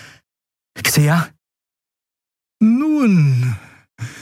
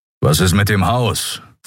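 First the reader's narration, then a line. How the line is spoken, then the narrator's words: Plain question. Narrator (German): fragte er Endriel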